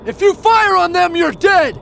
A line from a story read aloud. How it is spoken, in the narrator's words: He shouted